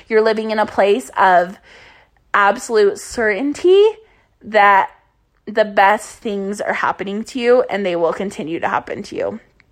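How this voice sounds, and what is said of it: Raspy, fading voice. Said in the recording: “losing my voice. So I sound a little sexy and raspy.”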